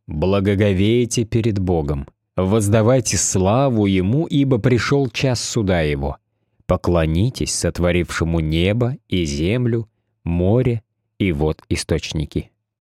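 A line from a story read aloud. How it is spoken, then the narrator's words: Loud calling out. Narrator (Russian): Он громко взывал к людям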